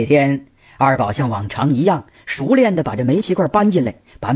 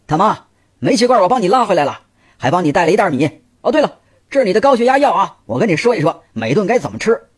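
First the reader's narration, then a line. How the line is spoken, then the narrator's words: Calling from inside. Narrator (Chinese): 他从屋里喊道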